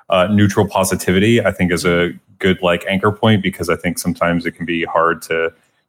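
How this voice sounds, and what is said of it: Pleasant, polished radio voice. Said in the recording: “You have a very good radio voice ... lovely voice ... It sounds great”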